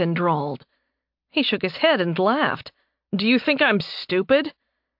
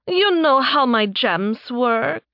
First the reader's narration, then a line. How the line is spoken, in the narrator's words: She asked, almost purring